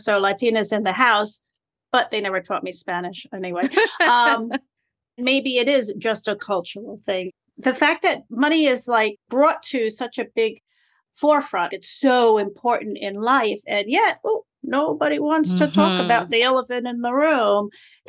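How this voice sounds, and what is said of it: New York accent. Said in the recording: “my New Yorkie accent”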